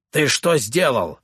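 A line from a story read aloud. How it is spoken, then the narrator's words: General's bark. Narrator (Russian): рявкнул генерал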